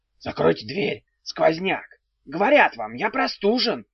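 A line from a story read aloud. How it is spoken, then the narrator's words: Wheezing, hoarse. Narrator (Russian): засипел электрик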